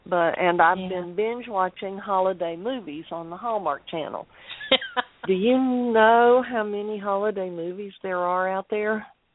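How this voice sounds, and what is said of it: Sick, under-the-weather voice. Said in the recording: “I'm not sure if you can tell from my voice, but I'm a little bit under the weather tonight. I've been sick for a couple of days”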